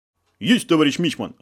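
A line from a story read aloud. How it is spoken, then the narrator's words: Joyful bark. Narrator (Russian): радостно гаркнул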